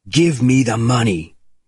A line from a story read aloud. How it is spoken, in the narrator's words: Bourne shouted at the messenger